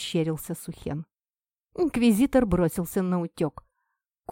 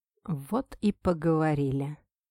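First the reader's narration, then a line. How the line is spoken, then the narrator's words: Mutter. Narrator (Russian): пробормотал кореец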